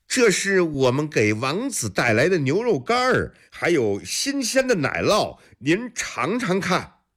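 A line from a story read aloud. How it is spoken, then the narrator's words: Deliberately loud. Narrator (Chinese): 故意大声说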